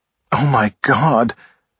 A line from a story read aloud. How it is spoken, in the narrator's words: Blaze groaned